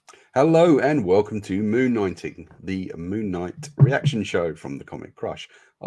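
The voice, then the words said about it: Congested voice from a cold. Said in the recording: “I've got a cold.”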